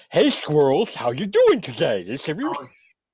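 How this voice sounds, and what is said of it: Wacky Mr. Magoo-like cartoon voice. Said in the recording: “your best Vicky Licks impersonation ... sounds like a wacky version of Mr. Magoo”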